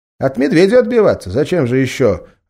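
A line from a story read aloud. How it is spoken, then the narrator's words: Plain. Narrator (Russian): ответил Болт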